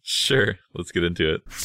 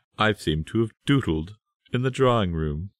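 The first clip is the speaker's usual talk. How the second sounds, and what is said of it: Put-on British accent. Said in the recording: “Maybe he has a British accent”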